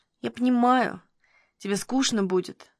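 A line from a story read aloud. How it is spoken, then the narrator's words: Quiet. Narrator (Russian): тихо говорил Никитин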